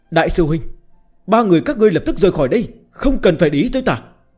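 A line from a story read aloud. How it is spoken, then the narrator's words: Urgent shout. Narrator (Vietnamese): giọng điệu cấp bách la lên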